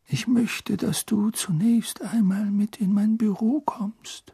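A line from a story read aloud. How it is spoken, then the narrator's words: Whispered. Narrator (German): flüsterte er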